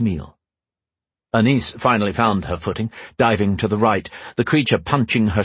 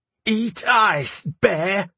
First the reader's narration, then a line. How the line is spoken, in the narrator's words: he screamed through gritted teeth